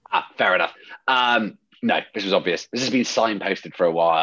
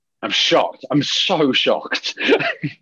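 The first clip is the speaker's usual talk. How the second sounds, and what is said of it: Sarcastic mock-surprised tone. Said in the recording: “when I'm being sarcastic”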